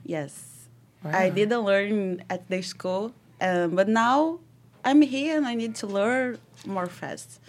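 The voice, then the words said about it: Strong Brazilian Portuguese accent. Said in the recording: “I'm from Brazil ... I started to learn English 4 months ago. That's why my accent is so strong.”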